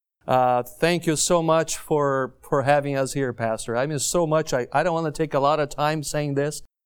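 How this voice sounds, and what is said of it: Brazilian-accented English. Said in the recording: “brushing up my southern drawl a little bit with a Brazilian accent”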